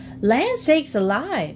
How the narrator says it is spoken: she exclaimed when she saw the animals all grouped about the carriage

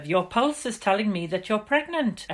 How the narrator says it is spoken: exclaimed Dr

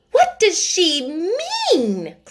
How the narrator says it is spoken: cried Miss Minchin to Miss Amelia

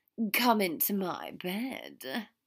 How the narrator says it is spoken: Draco purred

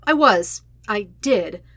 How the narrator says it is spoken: Sokka says

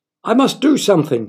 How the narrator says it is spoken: he cried

